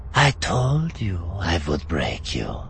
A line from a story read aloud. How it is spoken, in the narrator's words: the Falling whispered in his ear